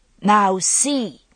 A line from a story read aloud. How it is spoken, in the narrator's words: he shouted